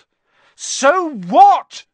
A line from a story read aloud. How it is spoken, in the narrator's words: Harry shouted